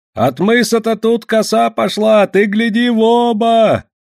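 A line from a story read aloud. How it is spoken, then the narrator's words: Shouting old settler. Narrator (Russian): кричал чернявый старосел Вятич казаку-лоцману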